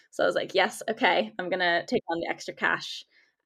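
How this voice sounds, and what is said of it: American accent. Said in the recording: “I'm American, if you can tell by my accent”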